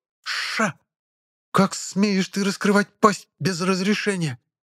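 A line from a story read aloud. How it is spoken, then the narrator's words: Furious hiss. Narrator (Russian): Разъяренно зашипела Абиссалийка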